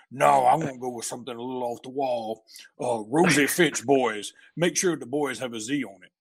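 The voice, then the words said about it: Coach O impersonation. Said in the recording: “that was a first rate Coach O impersonation, by the way. I mean, that was like, that was good. That was elite.”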